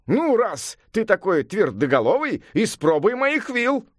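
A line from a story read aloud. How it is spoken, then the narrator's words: Shouted, wizard. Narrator (Russian): крикнул волшебник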